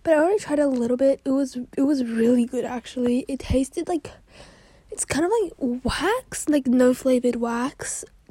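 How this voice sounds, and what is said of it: Slightly out of breath. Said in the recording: “a little out of breath. I need to catch my breath a bit. Because it's kind of running upstairs”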